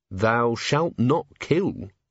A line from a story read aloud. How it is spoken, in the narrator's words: Carrot read slowly